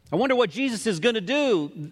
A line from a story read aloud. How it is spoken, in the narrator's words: cried out in fear, and they were terrified